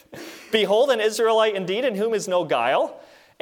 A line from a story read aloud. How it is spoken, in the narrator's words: a little bit sarcastically